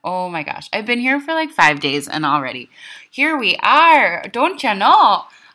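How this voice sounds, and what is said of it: Intense Minnesota accent. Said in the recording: “I'm speaking with a really intense Minnesota accent right now.”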